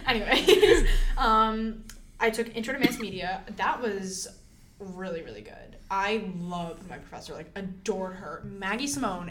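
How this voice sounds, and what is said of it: Noticeable regional accent. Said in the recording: “I have more of an accent than you do”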